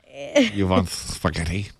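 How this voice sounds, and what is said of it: Clumsy put-on Russian-Italian accent. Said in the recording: “What kind of accent is that? Gotta work on that a little bit. ... That was my Russian-Italian accent.”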